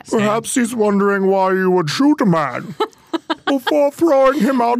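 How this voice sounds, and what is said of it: Imitates Bane villain voice. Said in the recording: “you have to say it like Bane now ... That was a great imitation. ... Really good.”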